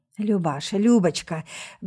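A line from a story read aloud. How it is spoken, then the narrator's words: Voice sinking to whisper. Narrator (Russian): голос оседает почти до шепота от ее волнующей близости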